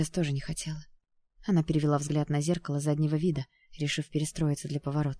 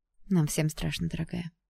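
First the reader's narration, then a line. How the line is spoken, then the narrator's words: Sighing. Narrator (Russian): вздохнула Даяна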